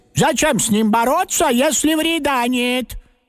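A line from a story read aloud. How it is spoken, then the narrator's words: Loud agreeing grandmother. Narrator (Russian): согласилась бабушка, тоже громко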